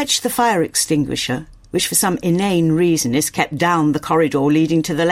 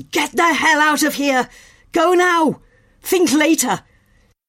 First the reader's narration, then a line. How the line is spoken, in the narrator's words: He yells